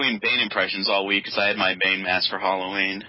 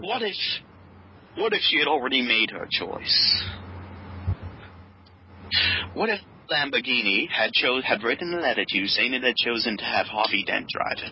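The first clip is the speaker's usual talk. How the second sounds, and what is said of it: Bad impression of an older British man. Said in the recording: “Is that your Michael Caine impression? ... Very bad one.”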